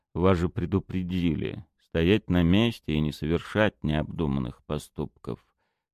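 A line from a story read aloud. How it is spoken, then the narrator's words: Calm. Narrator (Russian): Подполковник Вербин спокойно сказал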